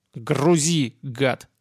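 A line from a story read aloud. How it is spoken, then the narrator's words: Growling boss. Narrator (Russian): прорычал начальник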